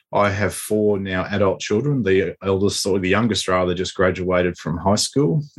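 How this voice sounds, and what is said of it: Australian accent. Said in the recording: “As you can hear, my accent's a little bit different from yours. So I live in Australia.”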